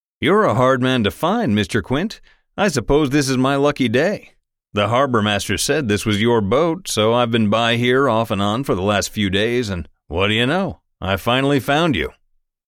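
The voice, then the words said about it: Polished Eastern US accent. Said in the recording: “The polished Eastern accent”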